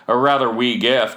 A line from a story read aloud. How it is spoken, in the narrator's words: said